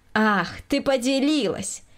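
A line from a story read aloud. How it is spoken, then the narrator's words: Snide interruption. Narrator (Russian): ехидно перебила ее хозяйка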